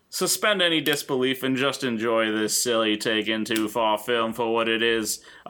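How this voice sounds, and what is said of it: Put-on English accent. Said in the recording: “that was my best English accent. ... It sounds like an impression of my impression of Conan O'Brien's impression of John Lennon.”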